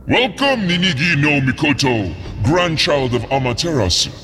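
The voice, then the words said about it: Rich, deep, booming character voice. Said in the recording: “A rich, deep voice boomed, echoing across the caves.”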